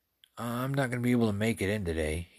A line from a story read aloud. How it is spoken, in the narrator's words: he said in his best sick voice